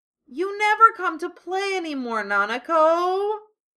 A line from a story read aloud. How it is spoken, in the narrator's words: Teddy wailed